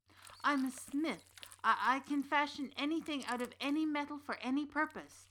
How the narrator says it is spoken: stammered in his defense, hoping his trade would be enough somehow to save his life

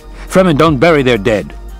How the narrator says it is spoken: the men barked

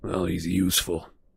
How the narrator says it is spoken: Sirius muttered

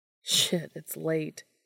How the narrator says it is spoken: he said with a laugh

